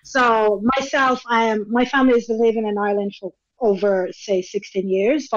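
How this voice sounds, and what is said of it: Mixed international accent. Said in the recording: “That's not a Douglas accent ... My mom calls my accent a worldly accent.”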